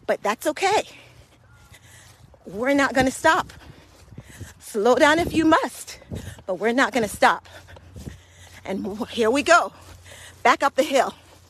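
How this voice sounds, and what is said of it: Out of breath while speaking. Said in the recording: “as you can hear, I am out of breath... Or I'm getting very uncomfortable speaking”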